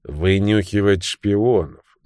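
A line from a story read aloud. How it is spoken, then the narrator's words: Gloomy explanation. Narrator (Russian): мрачно объяснил Беррисфорд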